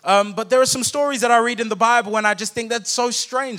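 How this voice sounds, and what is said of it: Noticeable accent in English. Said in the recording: “Please mind my accent. I hope that you guys can understand me.”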